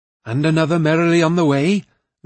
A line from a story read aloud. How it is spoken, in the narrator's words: Lonio replied, grinning happily